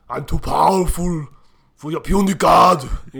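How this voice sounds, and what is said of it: Bad Arnold Schwarzenegger-style impression. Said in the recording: “bad Schwarzenegger impersonations”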